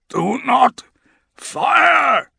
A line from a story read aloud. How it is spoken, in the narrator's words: croaks